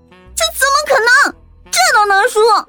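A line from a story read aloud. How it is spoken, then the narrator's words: Sudden anguished scream. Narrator (Chinese): 本名花玲的小师妹顿时惨叫了一声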